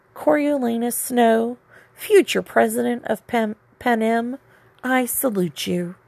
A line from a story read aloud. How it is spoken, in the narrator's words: mockingly whispered to his image